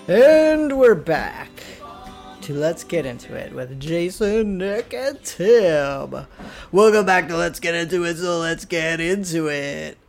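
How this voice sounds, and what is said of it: Put-on radio announcer voice. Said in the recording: “that was my radio voice.”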